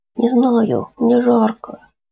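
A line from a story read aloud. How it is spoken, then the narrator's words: Weak plaintive child's voice. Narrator (Russian): слабым, жалобным голоском ответил мальчик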